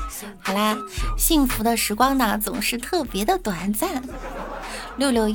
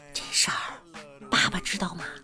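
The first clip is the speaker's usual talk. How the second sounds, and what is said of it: Whispering quietly. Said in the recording (Chinese): “凑到妈妈耳边，小声的说道”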